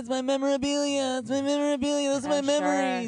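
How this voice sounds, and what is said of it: Imitates another person's voice. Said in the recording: “You do a great Mark Hamill impression. ... Yeah, it's good.”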